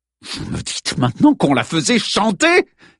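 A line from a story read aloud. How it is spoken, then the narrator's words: Exasperated exclamation. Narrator (French): s'exclama Henry Adams à bout de nerfs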